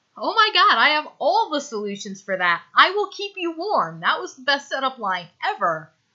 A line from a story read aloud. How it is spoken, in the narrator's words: Stiles says happily